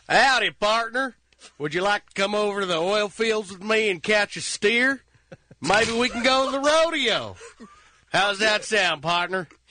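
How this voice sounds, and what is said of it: Put-on Texas accent. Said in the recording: “Texas. A Texas accent. ... Texas accent. ... It's uncanny.”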